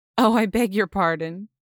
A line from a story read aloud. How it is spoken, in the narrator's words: the priest laughed